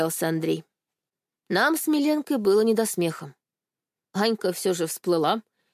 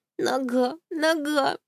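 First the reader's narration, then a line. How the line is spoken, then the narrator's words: Whimpering. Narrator (Russian): хныкала Анька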